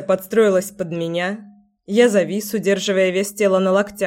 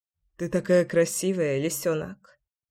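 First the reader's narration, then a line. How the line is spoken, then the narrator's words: Murmured. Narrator (Russian): пробормотал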